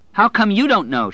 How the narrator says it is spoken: cried at him

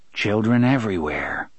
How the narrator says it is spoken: the guard said gently

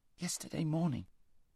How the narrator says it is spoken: said Shasta weakly

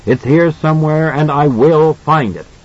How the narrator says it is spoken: he screams at the audience

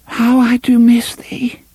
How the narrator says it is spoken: she said in a small and broken voice

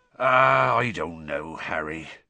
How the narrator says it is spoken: Hagrid sighed suddenly, with a worried expression on his face

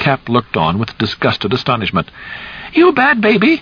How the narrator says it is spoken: Wanless cried

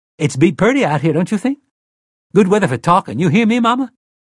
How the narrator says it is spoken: Detta said brightly

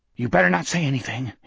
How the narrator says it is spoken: panted

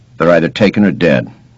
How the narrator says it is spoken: he said flatly

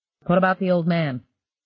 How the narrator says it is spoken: he asked flatly

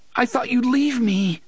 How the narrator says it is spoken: the boy was sobbing

